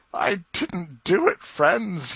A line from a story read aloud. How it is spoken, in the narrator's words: sobbed